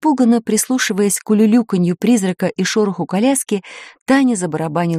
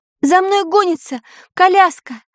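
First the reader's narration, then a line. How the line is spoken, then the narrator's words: Shouted. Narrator (Russian): крикнула Таня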